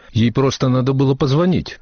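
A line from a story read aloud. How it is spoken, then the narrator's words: Muttering. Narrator (Russian): Дороти пробормотала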